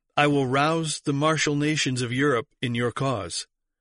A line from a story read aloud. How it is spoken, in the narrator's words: exclaimed Peter